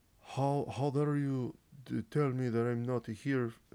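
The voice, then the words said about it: Put-on accent that sounds Russian. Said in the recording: “Why do I make him sound Russian? ... I can't do a Cristiano Ronaldo accent.”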